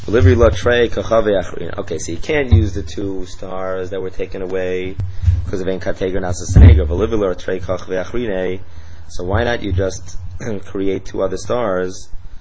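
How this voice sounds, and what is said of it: Sore, slightly strained voice. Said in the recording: “get a little bit of my voice. My voice is a little bit sore.”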